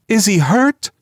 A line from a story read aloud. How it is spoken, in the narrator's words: demanded the mother wildly